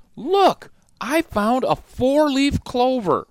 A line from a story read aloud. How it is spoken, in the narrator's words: Suddenly, Dot cried out in excitement